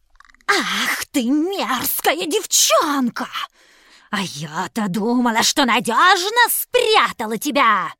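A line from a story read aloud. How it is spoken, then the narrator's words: Witch's hiss. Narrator (Russian): зашипела колдунья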